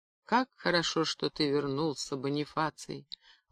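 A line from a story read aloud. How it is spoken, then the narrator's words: Tender and bitter. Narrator (Russian): ласково и горько сказала она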